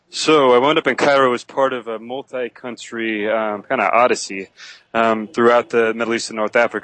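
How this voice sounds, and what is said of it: American accent. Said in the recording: “you are an American, obviously. I can tell from your accent.”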